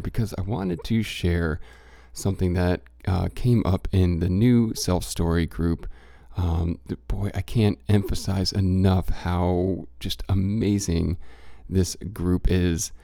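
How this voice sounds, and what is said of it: Congested voice from head cold. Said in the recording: “You might hear it in my voice a little bit, still have a pinch of the head cold going”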